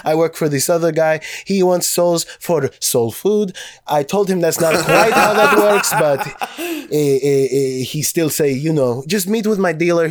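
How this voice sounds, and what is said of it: Put-on Russian accent. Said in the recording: “how great ... Russian accent is ... So good”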